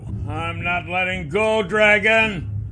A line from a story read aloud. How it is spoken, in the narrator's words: Nath yelled